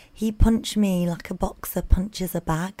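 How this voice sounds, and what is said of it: Attempted Manchester accent. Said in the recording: “What accent is that? ... you did quite well with it, to be fair ... I don't think that was a Manchester accent ... You had a good stab at it.”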